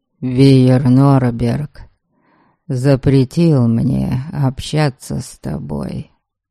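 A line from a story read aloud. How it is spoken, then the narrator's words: Utterly miserable tone. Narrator (Russian): совершенно несчастным тоном произнес Дариан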